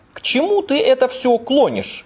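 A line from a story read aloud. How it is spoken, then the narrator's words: Irritated exclamation. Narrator (Russian): раздраженно воскликнул Гусейн Гуслия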